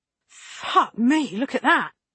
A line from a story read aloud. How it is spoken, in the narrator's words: Lane spat